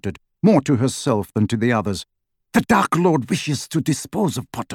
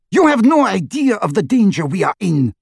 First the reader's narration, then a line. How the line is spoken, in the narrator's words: shrieked Bellatrix